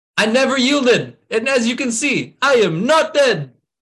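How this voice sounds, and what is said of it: Imitated movie character accent. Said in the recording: “Spot on with the accent, man... I can tell you've been practicing”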